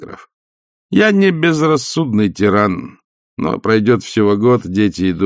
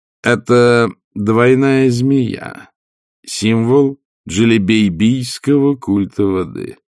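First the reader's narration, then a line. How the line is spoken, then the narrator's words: Calm. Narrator (Russian): спокойно сказал он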